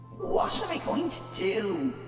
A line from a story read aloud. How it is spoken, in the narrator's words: he groaned to himself